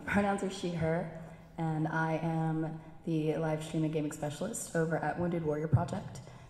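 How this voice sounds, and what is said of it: Hoarse, nearly lost voice. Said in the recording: “I lost my voice... We're all just really sultry”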